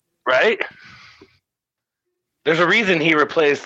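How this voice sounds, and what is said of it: Usual voice. Nothing is said of it.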